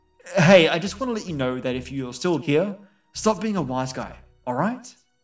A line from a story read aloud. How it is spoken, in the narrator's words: I yelled